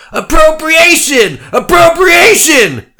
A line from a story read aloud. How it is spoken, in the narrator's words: they screamed